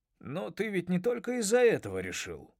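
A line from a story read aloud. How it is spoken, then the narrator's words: Grumbled. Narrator (Russian): проворчал он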